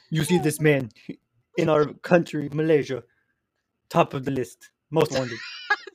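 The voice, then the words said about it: Exaggerated weird Russian-style accent. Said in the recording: “I give like a weird Russian accent there.”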